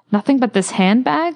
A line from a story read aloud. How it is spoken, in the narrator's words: laughed the other, thinking he was joking